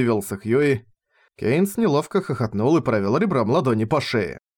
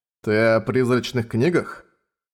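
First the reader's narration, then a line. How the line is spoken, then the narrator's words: Sighing. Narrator (Russian): вздохнул Хьюи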